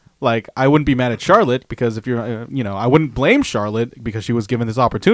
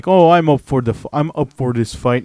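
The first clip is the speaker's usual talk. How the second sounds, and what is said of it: Poor imitation of another person's voice. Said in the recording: “terrible Becky Lynch impersonation”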